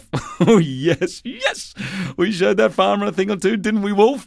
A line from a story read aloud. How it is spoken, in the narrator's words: He laughed